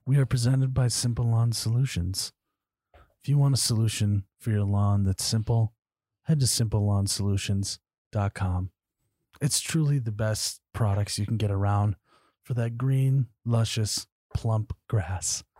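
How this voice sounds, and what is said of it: Soothing public-radio host voice imitation. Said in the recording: “You're really good at that. ... a very good Ira Glass impression there. ... It was kind of soothing, wasn't it?”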